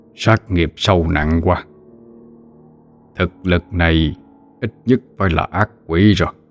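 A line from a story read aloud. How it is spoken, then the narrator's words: Muttering. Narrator (Vietnamese): Miệng thầy lầm bầm đánh giá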